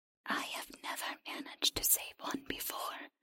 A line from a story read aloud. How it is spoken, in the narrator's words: the creature whispered